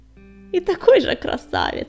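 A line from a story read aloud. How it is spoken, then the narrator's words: Laughing. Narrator (Russian): засмеялся Крутобок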